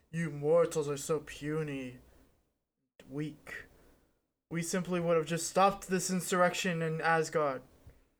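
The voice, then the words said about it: Poor imitation of Thor's voice. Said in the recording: “my Thor impression ... That was terrible.”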